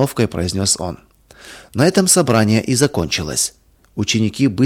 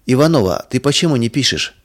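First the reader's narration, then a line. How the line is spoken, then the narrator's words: Stern question. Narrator (Russian): строго спросил учитель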